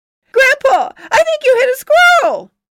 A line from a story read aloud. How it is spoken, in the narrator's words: Ilya shouted, his face plastered against the window